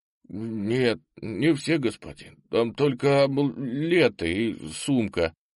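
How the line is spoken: Mumbling secretary. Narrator (Russian): промямлил секретарь убитого полковника

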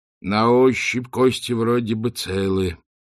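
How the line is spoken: Heavy exhale. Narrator (Russian): тяжело выдохнул Ринсвит

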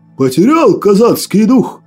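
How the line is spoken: Exclamation. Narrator (Russian): Воскликнул Иван Огонь

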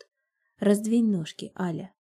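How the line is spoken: Hoarse. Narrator (Russian): хриплю я

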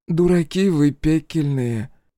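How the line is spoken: Oddly affectionate. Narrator (Russian): как-то даже ласково сказала Акулина

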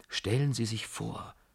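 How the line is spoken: Whisper. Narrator (German): flüsterte ich

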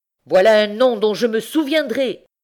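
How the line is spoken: Vindictive old man exclaiming. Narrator (French): s'écria le vieillard vindicatif

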